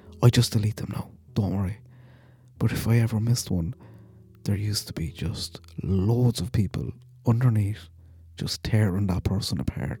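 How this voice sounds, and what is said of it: Strong accent, unpronounced H sounds. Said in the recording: “people can't understand me. I need to start pronouncing my H's ... mocking my accent”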